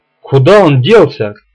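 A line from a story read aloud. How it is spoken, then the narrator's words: Shouted. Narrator (Russian): крикнул Дрейвен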